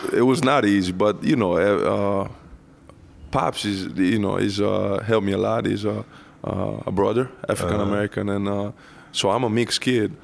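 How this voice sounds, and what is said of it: Italian accent in English. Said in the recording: “Italian with this funny accent”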